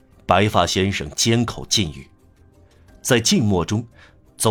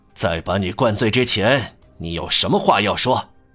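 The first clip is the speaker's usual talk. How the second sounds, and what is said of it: Low, stiff voice. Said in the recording (Chinese): “用低沉而生硬的声音说”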